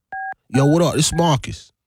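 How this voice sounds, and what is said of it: Put-on East Coast accent. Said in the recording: “No, like no. East Coast.”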